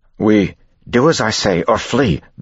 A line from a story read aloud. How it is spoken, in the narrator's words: Vin snapped